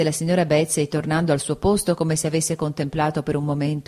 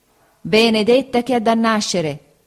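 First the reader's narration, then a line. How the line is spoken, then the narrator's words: Exclaimed. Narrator (Italian): esclamò la signora Bezze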